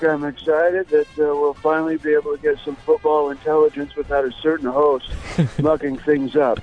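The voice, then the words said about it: Sounds ill, like having a cold. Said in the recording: “do you have a little bit of a cold? ... You sound a little ill. ... the seasonal allergies are always a problem ... I caught not only a cold”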